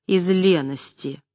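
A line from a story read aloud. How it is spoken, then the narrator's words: Sarcastic reply. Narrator (Russian): язвительно отвечал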